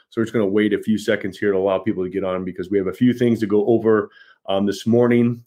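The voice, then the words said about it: Strained, failing voice. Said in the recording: “That's why my voice is going. I've been speaking a lot.”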